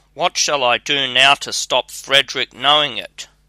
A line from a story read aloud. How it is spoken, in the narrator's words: she cried